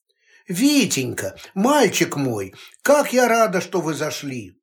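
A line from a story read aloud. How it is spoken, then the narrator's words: Exclaimed. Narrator (Russian): воскликнула Склонская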